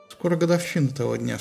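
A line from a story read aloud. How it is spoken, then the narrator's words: Plain. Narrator (Russian): сказал Приам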